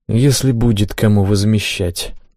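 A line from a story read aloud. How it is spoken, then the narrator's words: Sighing. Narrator (Russian): вздохнул я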